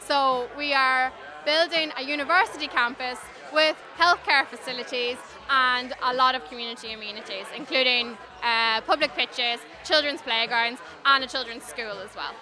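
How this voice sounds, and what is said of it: Irish Donegal accent. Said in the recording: “your lovely accent ... I'm born and bred in Donegal”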